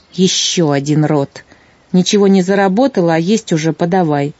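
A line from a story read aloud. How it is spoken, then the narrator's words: Displeased grumbling. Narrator (Russian): она недовольно проворчала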